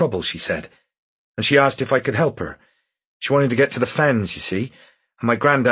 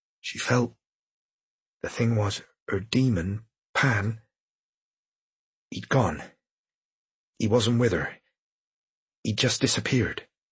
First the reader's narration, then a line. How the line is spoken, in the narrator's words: Dick leaned in closer, and finally said, almost in a whisper